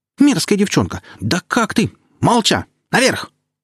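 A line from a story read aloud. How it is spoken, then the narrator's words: Thunderous bark. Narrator (Russian): рявкнула Лерия так, что светильники задрожали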